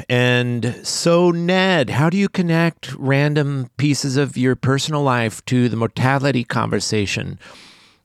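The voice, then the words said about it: Imitates another person's voice. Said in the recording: “That's my impersonation of you, I guess.”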